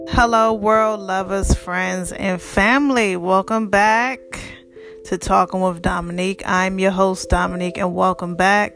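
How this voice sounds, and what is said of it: Slightly raspy voice. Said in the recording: “Excuse my voice if it's a little raspy. The previous episode, I told you I had allergies really badly”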